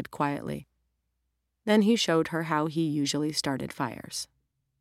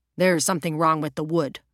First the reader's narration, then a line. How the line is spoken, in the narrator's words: Roger grunted